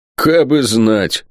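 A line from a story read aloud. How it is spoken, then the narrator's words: Gloomy reply. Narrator (Russian): мрачно ответил другой егерь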